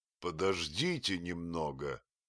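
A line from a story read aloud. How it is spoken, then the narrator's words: Quiet, solemn. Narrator (Russian): сказал я тихим и торжественным голосом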